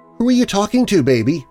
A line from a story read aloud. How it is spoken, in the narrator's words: asked nervously